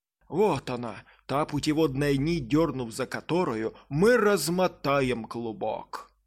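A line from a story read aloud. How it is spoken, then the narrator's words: Exclamation. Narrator (Russian): Воскликнул он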